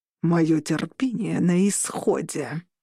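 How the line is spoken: Growled. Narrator (Russian): прорычал Орланд

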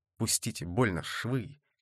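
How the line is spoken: Whisper. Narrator (Russian): зашептал он

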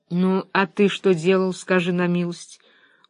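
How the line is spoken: Tired. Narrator (Russian): устало сказал Том

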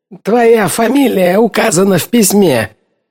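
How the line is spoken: Shrieking. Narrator (Russian): взвизгнул Киннан

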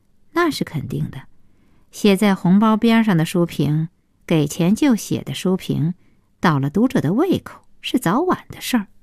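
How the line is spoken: Cold interjection. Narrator (Chinese): 顾小西冷冷的接茬说

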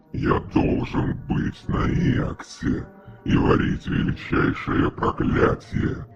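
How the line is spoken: Groan. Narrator (Russian): простонал он

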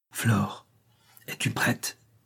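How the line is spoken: Said in low voice. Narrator (French): dit-elle à voix basse

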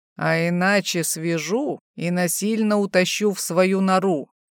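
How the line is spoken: Playful male growl. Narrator (Russian): шутливо рыкнул мужчина

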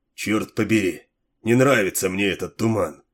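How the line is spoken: Grumbling. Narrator (Russian): пробурчал

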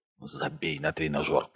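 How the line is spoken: Hiss. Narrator (Russian): прошипел Хенрик

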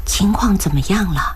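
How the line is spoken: Softly into phone. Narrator (Chinese): 轻声对着手机说

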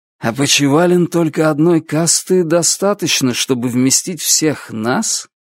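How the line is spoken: Mutter. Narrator (Russian): пробормотал Звон

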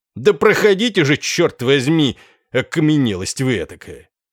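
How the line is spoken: Irritated shout. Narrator (Russian): он, еще более раздраженный, крикнул

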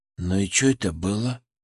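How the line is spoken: Fearful whisper. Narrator (Russian): спросил Семен шепотом, словно боялся, что Мышкин услышит его через стену

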